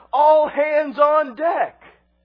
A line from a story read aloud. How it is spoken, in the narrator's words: the captain yells out